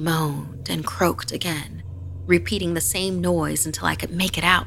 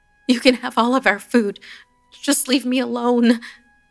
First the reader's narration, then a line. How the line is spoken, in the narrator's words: I pleaded